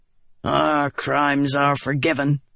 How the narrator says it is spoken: Gaz said with a grunt

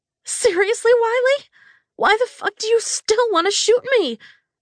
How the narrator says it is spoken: I screeched

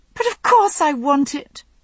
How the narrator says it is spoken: she exclaimed

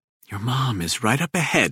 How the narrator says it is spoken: he whispers

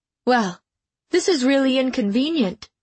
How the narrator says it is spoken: Mom blurted

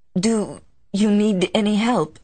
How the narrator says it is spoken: she stammered

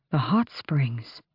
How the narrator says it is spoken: Kaol breathed

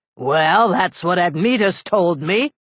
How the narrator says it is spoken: Hercules said angrily

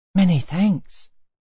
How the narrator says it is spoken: said the Will-o'-the-Wisp, coming timidly

